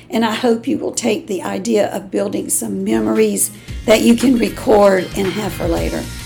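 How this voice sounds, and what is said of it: Strained, fading voice. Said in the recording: “My voice is going out on me today”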